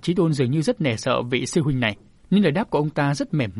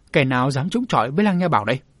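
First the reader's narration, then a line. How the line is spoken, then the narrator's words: Harsh gritted voice. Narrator (Vietnamese): Người được gọi là sư huynh đó lại gằn giọng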